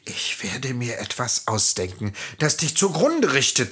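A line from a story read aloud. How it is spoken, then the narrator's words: Hissed. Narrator (German): zischte sie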